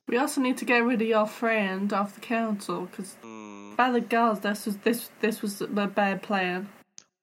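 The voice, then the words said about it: Put-on character accent, sarcastic. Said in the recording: “I was attempting sarcasm, I'm not very good at it in this accent.”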